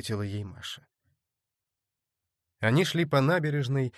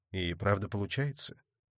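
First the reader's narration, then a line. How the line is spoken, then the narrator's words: Sighing. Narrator (Russian): Маша опять вздохнула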